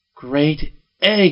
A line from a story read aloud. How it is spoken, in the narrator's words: I cried